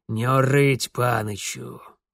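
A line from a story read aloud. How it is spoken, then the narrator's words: Grumbling. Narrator (Russian): пробурчал Бабайка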